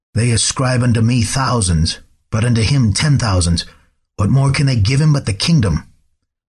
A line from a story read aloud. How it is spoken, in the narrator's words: When the king could finally speak, he croaked